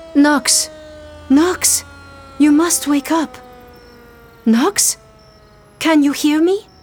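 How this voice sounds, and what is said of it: French-accented voice, insistent. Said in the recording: “A voice with a French lilt is repeating her name insistently.”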